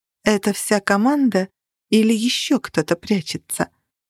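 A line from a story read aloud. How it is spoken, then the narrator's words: Plain question. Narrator (Russian): спросила я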